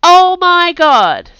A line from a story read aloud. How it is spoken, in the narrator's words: says Aisha loudly